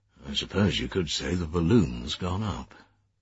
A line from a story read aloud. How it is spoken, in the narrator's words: The man beside him murmured